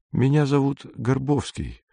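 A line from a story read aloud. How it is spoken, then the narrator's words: Quiet. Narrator (Russian): тихо сказал незнакомец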